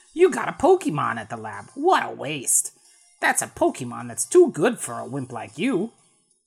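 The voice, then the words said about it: Imitates another person's voice. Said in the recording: “Gilbert Gottfried ... to do that voice. That's a terrible impression.”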